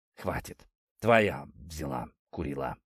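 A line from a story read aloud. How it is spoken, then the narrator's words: Hoarse, spitting blood. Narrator (Russian): прохрипел он, отплевываясь кровью и грязью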